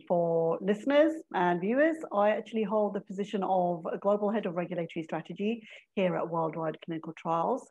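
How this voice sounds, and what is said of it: English accent. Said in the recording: “don't let that English accent confuse you”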